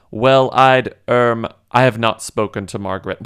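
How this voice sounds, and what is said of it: Put-on British accent. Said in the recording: “I'm giving her a British accent.”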